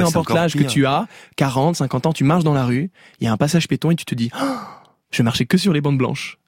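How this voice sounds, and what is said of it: Usual voice. Nothing is said of it.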